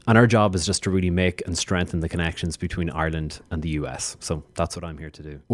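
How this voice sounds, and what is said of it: Irish accent. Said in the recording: “As you can hear from my accent, uh, I'm from Ireland. I'm from the Emerald Isle.”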